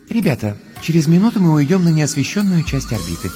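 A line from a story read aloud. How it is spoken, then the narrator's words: Gentle voice through suit speakers. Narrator (Russian): нежным голосом напоминает из динамиков скафандра Астрид Йенсен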